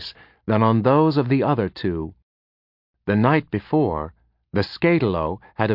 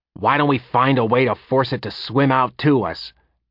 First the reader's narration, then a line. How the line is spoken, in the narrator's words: Tagwin snapped irritably